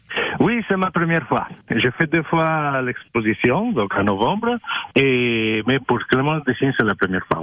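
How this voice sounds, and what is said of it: Italian-African accent in French. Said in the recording (French): “on reconnaît ce petit accent ... j'ai un accent bizarre ... c'est italo-africain”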